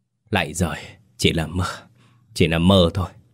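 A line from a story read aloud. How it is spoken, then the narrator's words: Panting, soft old man. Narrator (Vietnamese): Ông thở hổn hển nói khẽ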